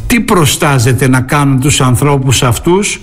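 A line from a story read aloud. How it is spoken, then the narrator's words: Plain. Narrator (Greek): ρώτησε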